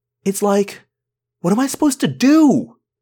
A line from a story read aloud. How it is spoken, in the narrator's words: yelled